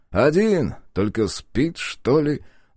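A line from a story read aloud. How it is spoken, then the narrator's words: Thoughtful. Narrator (Russian): задумчиво произнес Мамед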